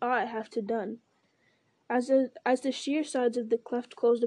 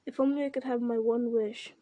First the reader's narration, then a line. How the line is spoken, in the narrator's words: he sighed